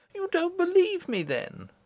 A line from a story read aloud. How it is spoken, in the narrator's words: exclaimed the Princess, astonished and angry